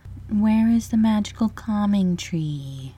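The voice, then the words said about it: Sorrowful character voice. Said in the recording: “in a sorrowful voice”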